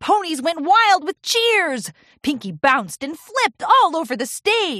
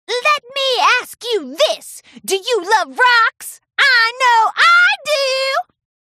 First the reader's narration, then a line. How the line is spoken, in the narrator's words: Pinkie screamed into the megaphone